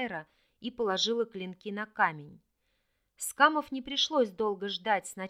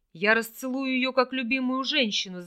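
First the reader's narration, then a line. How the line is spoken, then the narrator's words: Yell. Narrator (Russian): заорал тот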